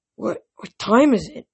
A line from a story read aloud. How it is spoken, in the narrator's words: I croaked